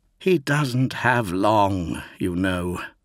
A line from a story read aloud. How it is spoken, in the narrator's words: sighed Tyro